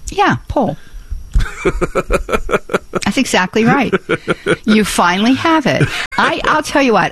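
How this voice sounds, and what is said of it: Pittsburgh accent. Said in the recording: “I cannot completely ditch my Pittsburgh accent ... in Pittsburgh, the words P-U-L-L, P-O-L-E, and P-O-O-L are all pronounced the same”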